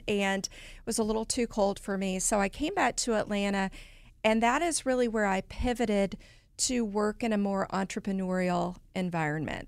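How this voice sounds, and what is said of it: Southern American accent. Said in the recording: “I am Southern, as you can tell by my accent”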